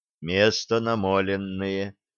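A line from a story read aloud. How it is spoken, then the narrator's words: Quiet. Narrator (Russian): негромко проговорил Сергий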